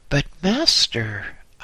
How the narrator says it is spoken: I exclaimed

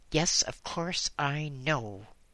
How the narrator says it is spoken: said Martin angrily

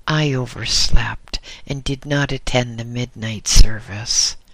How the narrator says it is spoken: exclaimed the young monk nervously

